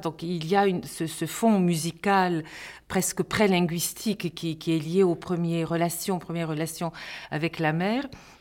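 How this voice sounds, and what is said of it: French with a slight Bulgarian accent. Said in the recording (French): “Le bulgare est resté quand même très présent et je le retrouve dans mes intonations ... j'entends mon accent, mes intonations”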